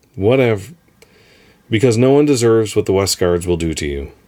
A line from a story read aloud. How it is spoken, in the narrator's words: said loudly and quickly, cutting me off